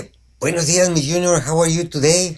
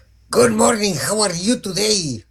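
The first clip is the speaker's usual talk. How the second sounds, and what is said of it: English with a put-on Mexican accent. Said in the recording (Spanish): “Hoy ando hablando inglés bien, bien. Mira, con un acento francés, no. Italiano tampoco. Mexicano.”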